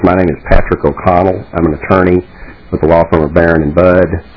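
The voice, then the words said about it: Texan Southern American accent. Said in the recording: “As you might notice from my accent, I'm from a little farther south of here than Minnesota, from Austin, Texas.”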